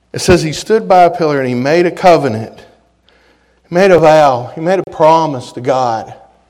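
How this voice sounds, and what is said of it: West Virginia Appalachian accent. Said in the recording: “my West Virginia hillbilly accent shows up”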